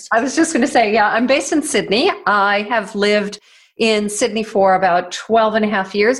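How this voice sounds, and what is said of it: American accent. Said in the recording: “originally from the US ... You've still got your accent there”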